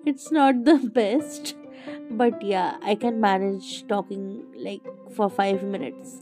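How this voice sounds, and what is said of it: Sick, strained voice. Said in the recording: “I have been sick, and you can tell that from my voice.”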